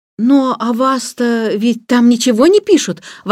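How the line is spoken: Exclamation. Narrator (Russian): воскликнула Джейн

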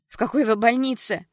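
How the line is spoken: Deafening scream. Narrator (Russian): Даяна закричала так, что Джесс едва не оглохла

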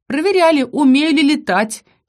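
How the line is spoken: Giggling. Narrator (Russian): хихикнула я

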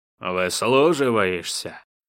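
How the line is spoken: Hostile growl. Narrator (Russian): неприязненно рыкнул ей князь

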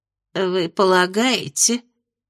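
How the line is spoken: Timid fairy's question. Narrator (Russian): робко поинтересовалась праздничная фея

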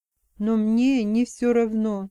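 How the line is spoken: Soft. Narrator (Russian): мягко сказал Алекс

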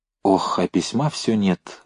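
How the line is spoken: Sighed. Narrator (Russian): вздохнул Новиков

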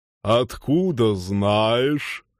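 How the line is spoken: Skeptical deep voice. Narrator (Russian): скептически пробасил Норл

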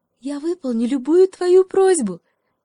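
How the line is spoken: Cheerful shout, monkey. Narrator (Russian): весело крикнула обезьянка

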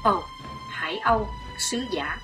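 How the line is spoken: Soft involuntary exclamation. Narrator (Vietnamese): Bất giác chàng kêu khẽ

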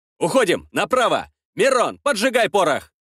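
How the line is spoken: Shouting. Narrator (Russian): выкрикнул я

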